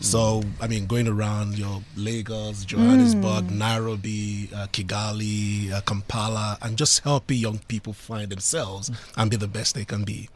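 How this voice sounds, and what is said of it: Attractive accent. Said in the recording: “Isn't that a sexy accent? What is that?”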